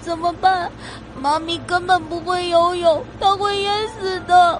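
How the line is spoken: Near-tearful voice. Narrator (Chinese): 他再也忍不住的，带着快哭了的嗓音说道

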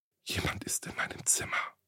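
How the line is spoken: Frightened whisper into phone. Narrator (German): flüsterte die junge Frau verängstigt in ihr Handy

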